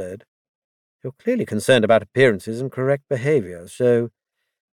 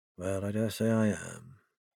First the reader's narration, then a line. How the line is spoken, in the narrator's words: he mumbled